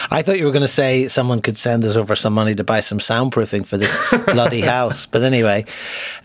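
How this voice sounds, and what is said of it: Irish brogue accent. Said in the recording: “lovely Irish brogue”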